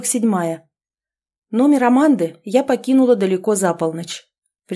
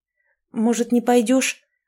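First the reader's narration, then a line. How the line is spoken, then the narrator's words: Worried mumble. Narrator (Russian): обеспокоенно пробормотала подруга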